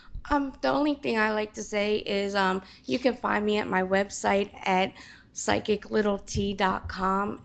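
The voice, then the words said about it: Hoarse, fading voice. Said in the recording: “lose my voice even more”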